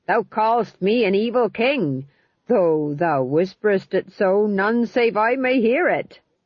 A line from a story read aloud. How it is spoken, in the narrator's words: Tom John croaked